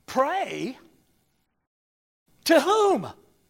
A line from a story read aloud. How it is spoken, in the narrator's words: exclaimed